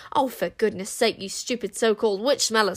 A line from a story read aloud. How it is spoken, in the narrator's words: snapped the queen